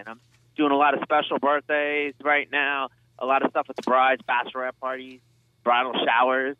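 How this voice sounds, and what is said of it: New York accent. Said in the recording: “New York. ... I can tell by the accent.”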